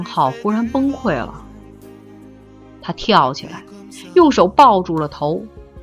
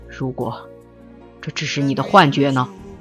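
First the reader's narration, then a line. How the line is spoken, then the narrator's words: Stern sharp question. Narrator (Chinese): 江淮厉声问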